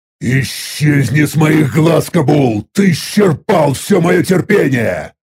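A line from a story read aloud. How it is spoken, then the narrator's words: Growling. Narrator (Russian): Прорычал я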